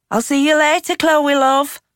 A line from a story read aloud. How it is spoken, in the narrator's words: Shivani called out as she left